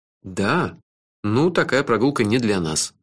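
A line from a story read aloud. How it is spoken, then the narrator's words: Sighing. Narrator (Russian): вздохнул я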